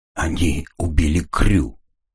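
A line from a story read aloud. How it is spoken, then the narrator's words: Hoarse strained. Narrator (Russian): хрипло выдавил Редли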